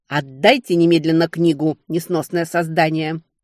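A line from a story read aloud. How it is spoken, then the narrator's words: Barked. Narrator (Russian): рявкнула я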